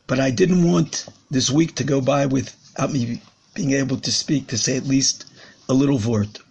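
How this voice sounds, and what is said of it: Hoarse, strained voice. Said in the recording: “As you can hear, I'm a little bit hoarse... I lost my voice”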